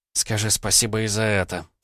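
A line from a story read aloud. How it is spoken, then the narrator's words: Snort. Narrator (Russian): фыркнула Алиса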